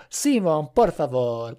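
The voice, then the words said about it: Poor put-on Spanish accent. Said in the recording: “that was a terrible Spanish accent ... It sounded Italian.”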